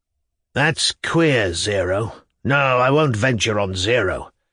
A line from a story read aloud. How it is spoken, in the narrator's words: he muttered to his neighbour